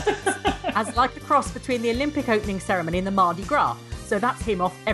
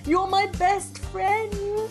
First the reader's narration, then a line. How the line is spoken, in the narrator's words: yelled Helen hysterically